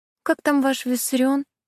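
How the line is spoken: Thin-voiced question. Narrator (Russian): тонким голоском спросила она

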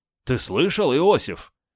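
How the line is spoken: Exclaiming. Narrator (Russian): воскликнул Молотов

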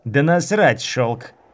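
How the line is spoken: Growling woman. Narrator (Russian): Зарычала женщина

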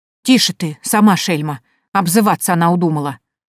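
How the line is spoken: Girl snapping back. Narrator (Russian): огрызнулась девушка

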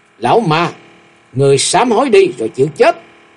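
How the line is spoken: Loud angry shout. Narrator (Vietnamese): Từ Bố Châu tức giận hét lớn

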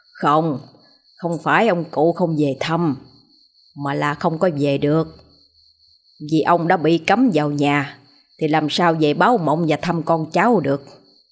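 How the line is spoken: Smiling voice. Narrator (Vietnamese): Sư phụ mỉm cười

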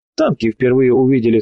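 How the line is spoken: Short laugh. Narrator (Russian): хохотнул доброволец

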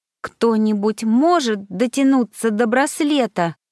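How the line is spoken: Strained, forced out. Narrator (Russian): выдавила я

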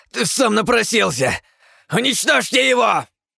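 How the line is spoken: Angry barked command. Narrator (Russian): зло рявкнул уникум, отдавая тем самым приказ призванным существам

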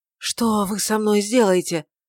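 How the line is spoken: Hoarse question. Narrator (Russian): спросил хрипло

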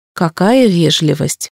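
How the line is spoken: Snorting. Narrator (Russian): фыркнула я

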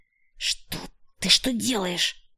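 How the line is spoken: Hiss. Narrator (Russian): зашипела

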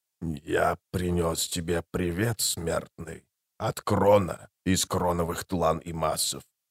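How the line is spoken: Quiet calm whisper. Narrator (Russian): сказал он тихим, спокойным шепотом

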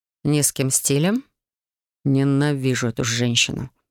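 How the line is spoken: Muttering. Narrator (Russian): пробормотал художник

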